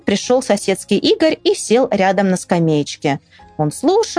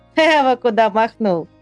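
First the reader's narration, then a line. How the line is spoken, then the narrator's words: Laughing. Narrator (Russian): смеялся Мишутка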